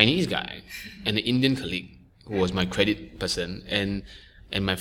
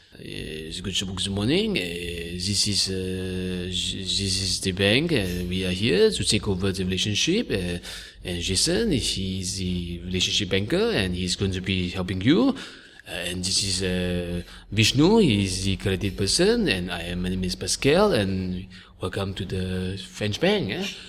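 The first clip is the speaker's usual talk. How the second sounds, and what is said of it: Imitated French accent. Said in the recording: “my French boss, if I may, in French, you know, in the French accent”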